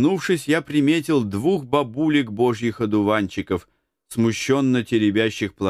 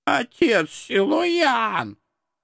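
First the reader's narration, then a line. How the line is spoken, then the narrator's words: Old women wailing, offended. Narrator (Russian): Обиженным дуэтом взвыли бабки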